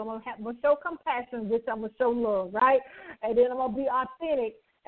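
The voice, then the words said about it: Southern American accent. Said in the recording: “your wonderful southern accent”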